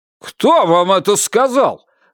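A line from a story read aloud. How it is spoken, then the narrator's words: Barked. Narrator (Russian): рявкнул Орнер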